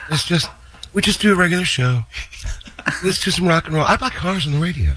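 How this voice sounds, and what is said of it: Imitates another person's voice. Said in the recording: “does a great impression of John ... That is incredible.”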